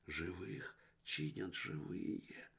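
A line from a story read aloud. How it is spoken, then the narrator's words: Child's whisper. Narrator (Russian): прошептал мальчик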